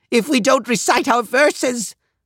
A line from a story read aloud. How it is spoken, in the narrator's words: Anger cried